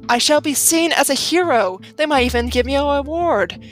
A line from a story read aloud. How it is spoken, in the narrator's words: I gasped